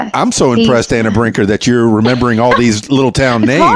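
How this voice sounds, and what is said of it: Usual voice. Nothing is said of it.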